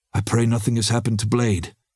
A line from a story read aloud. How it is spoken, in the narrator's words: Ricky said anxiously